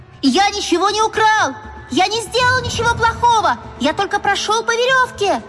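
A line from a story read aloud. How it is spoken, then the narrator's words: Small boy shouting. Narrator (Russian): Маленький циркач закричал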